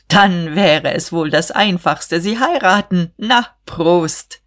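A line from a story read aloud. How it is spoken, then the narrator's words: Booming laughter. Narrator (German): Diederich lachte dröhnend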